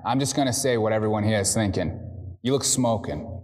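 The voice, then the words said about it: Boston accent. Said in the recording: “He's talking like in that Boston accent”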